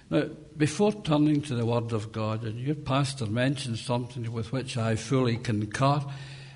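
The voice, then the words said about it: Scottish accent. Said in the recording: “understanding the language that we speak ... Most of you will be familiar with the Scottish accent”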